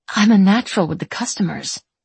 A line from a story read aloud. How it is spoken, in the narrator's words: she murmurs